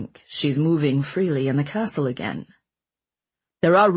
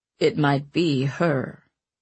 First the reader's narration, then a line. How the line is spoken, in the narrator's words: Ratcliffe said in a low, dangerous voice